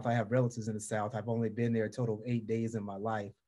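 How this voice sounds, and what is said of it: Southern American twang. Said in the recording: “I can hear that twang in your voice... I sound like I'm from the South... this Southern draw... You really do sound as if you're from the South”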